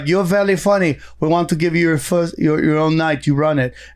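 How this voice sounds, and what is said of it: Good put-on French accent. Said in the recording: “That was a good French accent.”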